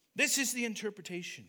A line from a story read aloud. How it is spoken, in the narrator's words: he said